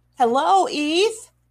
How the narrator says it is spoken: he shouted

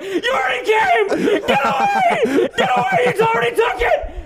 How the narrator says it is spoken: He's fucking screaming

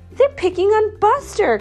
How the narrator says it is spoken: cried Binky

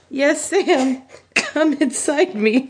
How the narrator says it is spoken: Frodo moaned against Sam's shoulder

